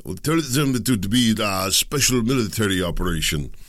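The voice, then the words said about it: Put-on Russian accent. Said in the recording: “That's my best Russian accent, best I can do for you.”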